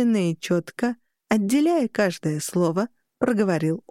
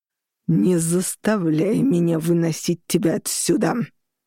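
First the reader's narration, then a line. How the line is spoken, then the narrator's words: Growl. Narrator (Russian): прорычал он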